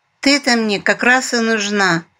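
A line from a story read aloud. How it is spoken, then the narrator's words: Sly mewing, broad smile. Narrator (Russian): заулыбавшись во весь рот, ехидно промяукала она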